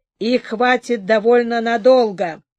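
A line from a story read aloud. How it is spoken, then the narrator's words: Gloomy reply. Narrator (Russian): мрачно отозвался Эль-Ахрайрах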